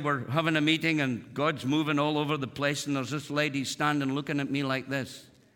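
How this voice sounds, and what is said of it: Speaks with a noticeable accent. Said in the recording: “you get my accent. Used to be a little thicker then, but I soften it for you guys”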